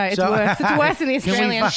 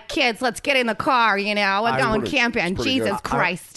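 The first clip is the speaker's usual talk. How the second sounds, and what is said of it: Put-on Midwestern American accent. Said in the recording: “my American is a Midwestern accent ... She picked the worst American accent to replicate. ... Fargo.”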